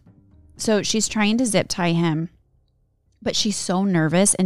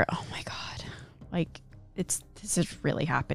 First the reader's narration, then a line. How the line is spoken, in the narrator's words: she can hear him whisper